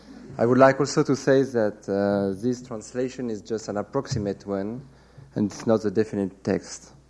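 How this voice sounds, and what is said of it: French accent. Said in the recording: “I hope you will uh, like my French accent.”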